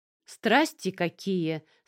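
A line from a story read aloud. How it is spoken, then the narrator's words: Loud. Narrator (Russian): сказала она громко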